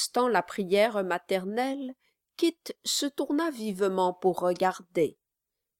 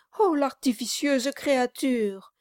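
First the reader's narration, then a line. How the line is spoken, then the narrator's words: Exclaimed. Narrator (French): s'écria Mistress Nobles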